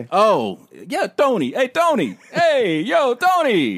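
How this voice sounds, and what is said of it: Put-on Italian-American accent. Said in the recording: “That's not a white guy voice ... it's Italian ... It's Italian.”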